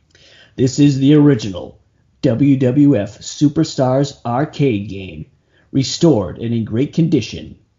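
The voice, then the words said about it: Announcer voice. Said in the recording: “Let me get my announcer voice.”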